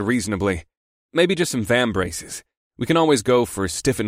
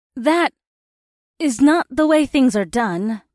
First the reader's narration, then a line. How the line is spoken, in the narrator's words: Indy said in an uncertain voice